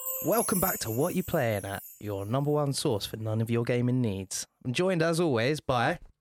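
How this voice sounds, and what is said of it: Smooth, deep radio voice. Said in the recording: “You've got a voice for radio ... You've got that smooth, deep voice.”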